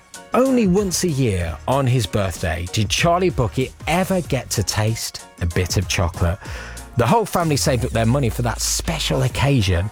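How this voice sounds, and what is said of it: Storytelling read-aloud voice. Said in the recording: “put on my best reading voice”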